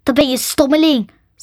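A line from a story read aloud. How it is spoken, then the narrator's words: Angry. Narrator (Dutch): zei het ding boos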